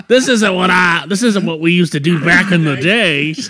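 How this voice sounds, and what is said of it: Put-on accent. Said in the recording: “Why the accents?”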